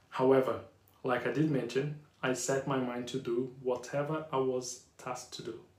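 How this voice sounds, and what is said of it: Strong Brazilian Yorkshire accent. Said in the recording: “English is not my first language ... I can speak English fluent with a strong Brazilian / Yorkshire accent.”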